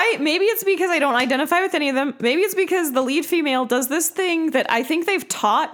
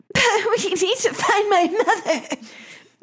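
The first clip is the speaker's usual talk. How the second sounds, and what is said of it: Breathy exhaling voice without breath support. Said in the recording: “they exhale either while they're speaking or right before. So they have no breath support. And so they sound like this ... it's like they've got the black lung while they're talking”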